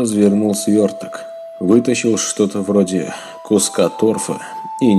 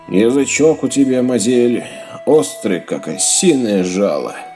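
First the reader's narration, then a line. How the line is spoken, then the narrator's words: Loud laughter. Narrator (Russian): снова захохотал Ярпин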